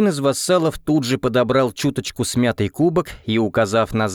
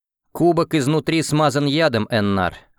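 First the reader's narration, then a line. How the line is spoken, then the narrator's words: Plain. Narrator (Russian): ответил я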